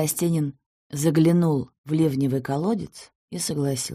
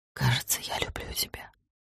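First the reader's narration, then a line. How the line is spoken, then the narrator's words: Soft whisper. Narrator (Russian): шепнула она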